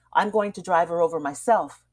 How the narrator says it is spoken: he repeated curtly

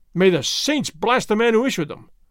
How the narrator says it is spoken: Don Carlos cried

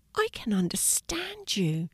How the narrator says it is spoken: she whispered, smiling

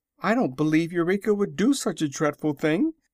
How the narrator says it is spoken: cried Dorothy, much distressed

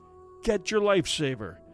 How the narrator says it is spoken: gasping for breath, and in an undertone he gasped

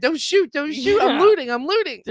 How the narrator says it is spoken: Screaming

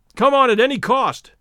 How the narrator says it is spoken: shouted Stoddard

